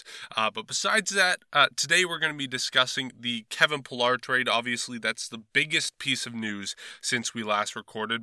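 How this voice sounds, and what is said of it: Slightly weird voice from a cold. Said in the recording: “A little bit under the weather. I've been sick the past few days, recovering from a cold. So if my voice sounds a little bit weird”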